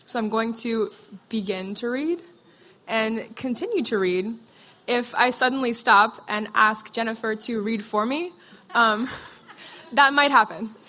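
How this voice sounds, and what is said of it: Hoarse voice, recovering from cold. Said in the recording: “hear from my voice, I am getting over a cold, and my voice is very chancy”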